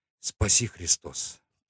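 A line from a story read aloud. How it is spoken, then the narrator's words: Whisper. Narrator (Russian): прошептала она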